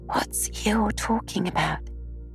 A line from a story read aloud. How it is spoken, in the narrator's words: Piglet whispered to Pooh